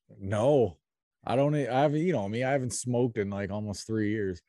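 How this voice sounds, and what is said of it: Worn-out, rough tired voice. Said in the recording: “as everybody can tell by my voice. My voice is probably a little out of it”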